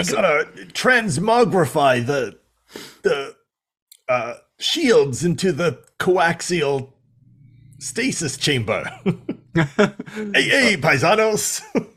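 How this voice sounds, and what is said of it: Put-on plumber-brother character accent. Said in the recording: “I can't do his accent for some reason. It's like a destitute plumber brother accent”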